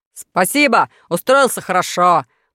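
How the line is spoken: Deep bass, smiling. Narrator (Russian): пробасил Моржов, улыбаясь во весь рот

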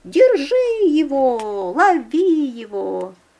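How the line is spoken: Persistent shouting. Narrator (Russian): Мурлыка, знай свое, кричит

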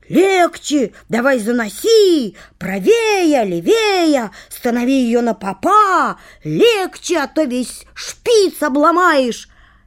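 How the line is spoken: Shouting at each other. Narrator (Russian): Они кричали друг на друга

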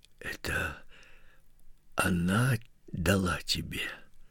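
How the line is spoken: Whispered. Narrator (Russian): прошептал отец

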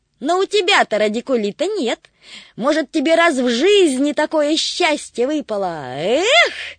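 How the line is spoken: Shouting. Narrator (Russian): крикнул Тришка

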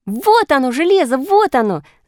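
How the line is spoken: Shout. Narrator (Russian): закричала Ниночка

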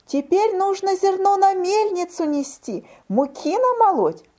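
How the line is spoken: Mice squeaking in unison. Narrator (Russian): мышата запищали в один голос

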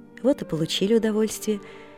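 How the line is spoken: Gentle, kindly. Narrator (Russian): говорил мне дядин приказчик ласково

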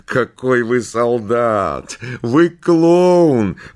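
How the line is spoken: Laughing. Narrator (Russian): засмеялась Светлана

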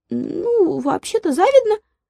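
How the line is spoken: Tiny squeaky voice. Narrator (Russian): пропищал комарёнок

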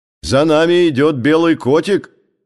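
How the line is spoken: Shouting. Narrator (Russian): закричал Паталамон

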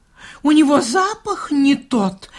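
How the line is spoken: Exclamation. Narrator (Russian): воскликнул он

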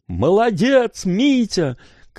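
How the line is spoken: Encouraging shout. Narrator (Russian): кричала Гуля, подбадривая его

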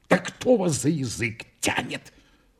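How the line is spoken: Whispered. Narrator (Russian): прошептал адвокат

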